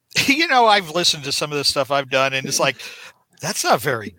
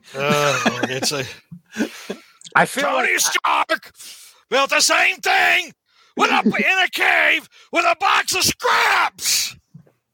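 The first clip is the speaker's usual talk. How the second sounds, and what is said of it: Obadiah Stane impression. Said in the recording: “a good Obadiah Stane impression”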